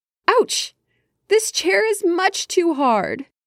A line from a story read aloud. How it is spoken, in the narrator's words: she cried